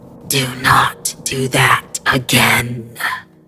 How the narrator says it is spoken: it hissed through one hole, working to produce the sound

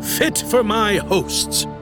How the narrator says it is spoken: boomed

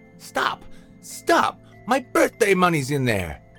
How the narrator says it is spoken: laughed devilishly

